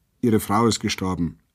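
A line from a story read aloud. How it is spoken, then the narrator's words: Indifferent curt call. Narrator (German): rief der Wärter gleichgültig kurz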